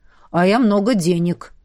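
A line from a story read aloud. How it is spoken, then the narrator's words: Deep bass voice. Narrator (Russian): пробасила Хараш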